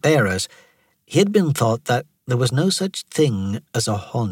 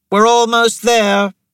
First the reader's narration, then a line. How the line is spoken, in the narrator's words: Thera shouted